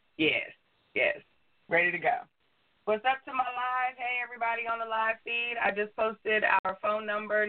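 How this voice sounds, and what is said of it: Slightly hoarse voice. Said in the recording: “a little hoarse”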